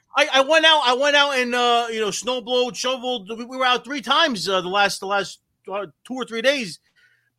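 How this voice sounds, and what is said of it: Thick New Jersey accent. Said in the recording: “Somebody mentioned that I have a thick Jersey accent. Jersey's in the blood.”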